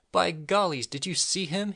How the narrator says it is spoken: he yelled

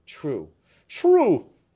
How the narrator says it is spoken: cried Fouquet furiously

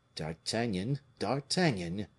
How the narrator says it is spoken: murmured the king

